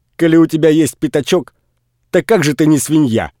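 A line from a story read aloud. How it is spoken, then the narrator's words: Joyful shout. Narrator (Russian): крикнул он радостно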